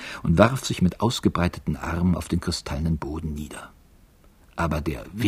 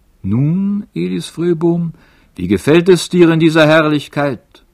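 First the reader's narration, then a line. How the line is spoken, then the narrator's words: Strong voice call. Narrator (German): rief eine starke Stimme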